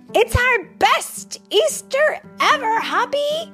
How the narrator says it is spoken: they shouted

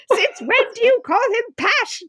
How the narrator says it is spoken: Jessica shrieked

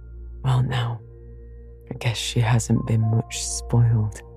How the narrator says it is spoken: he muttered proudly

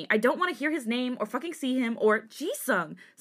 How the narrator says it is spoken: Seungmin snapped

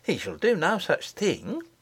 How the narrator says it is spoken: said the nurse indignantly

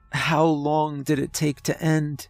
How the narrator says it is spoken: Olivia whimpered

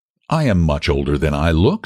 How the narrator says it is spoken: said Val stiffly

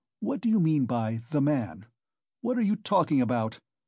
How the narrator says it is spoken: cried Raskolnikov

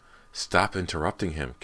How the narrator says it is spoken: Kelly snapped

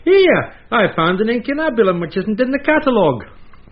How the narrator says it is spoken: he called out

